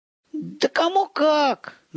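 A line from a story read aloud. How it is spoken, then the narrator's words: Good-natured laugh. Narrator (Russian): добродушно рассмеялся отец Александр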